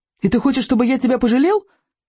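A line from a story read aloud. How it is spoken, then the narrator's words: Shouting. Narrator (Russian): крикнул он в Стойку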